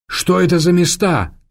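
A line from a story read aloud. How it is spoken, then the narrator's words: Shout. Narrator (Russian): крикнул Эраст Петрович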